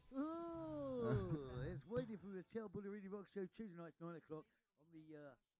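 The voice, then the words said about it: Exaggerated radio presenter voice. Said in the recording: “that's a hell of a radio voice”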